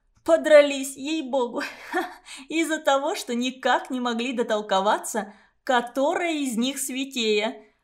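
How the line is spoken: Laughing to tears. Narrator (Russian): До слез хохотала Гелька

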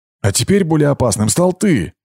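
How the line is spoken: Sharp bark. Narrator (Russian): рявкнула Герда

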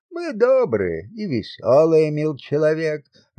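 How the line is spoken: Laughing peasant man. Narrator (Russian): рассмеялся мужик

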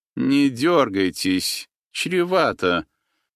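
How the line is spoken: Calm declaration. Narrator (Russian): спокойно заявил один из хмырей

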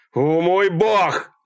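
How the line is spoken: Horrified scream. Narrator (Russian): завопил Малькольм, когда тело девушки простучало по автомобилю

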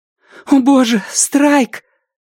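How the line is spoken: Breathless exhale. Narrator (Russian): он выдохнул

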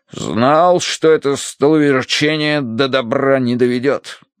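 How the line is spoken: Grumbling. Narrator (Russian): проворчал полковник

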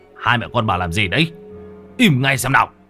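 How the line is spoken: Shouting. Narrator (Vietnamese): tiếng ông Đông quát lên

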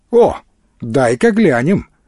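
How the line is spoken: Interested exclamation, elderly man. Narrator (Russian): с интересом воскликнул пожилой

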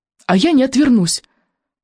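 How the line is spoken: Shaky voice. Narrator (Russian): произнес он дрогнувшим голосом

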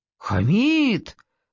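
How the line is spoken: Feigned horrified exclamation. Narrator (Russian): С поддельным ужасом воскликнула я

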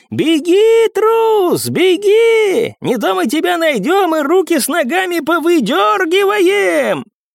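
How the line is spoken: Annoyed full-voiced shout. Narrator (Russian): раздосадованно произнес еще один курсант и во весь голос прокричал

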